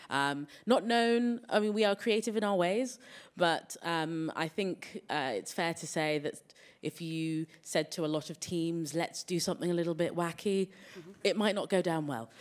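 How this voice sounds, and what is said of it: English accent. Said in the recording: “as you can tell from the accent, I am from England”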